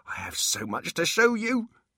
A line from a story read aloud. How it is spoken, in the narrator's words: babbled excitedly